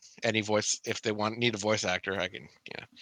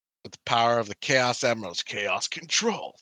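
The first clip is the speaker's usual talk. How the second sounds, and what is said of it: Imitated cartoon character voice. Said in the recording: “That's my shadow imitation”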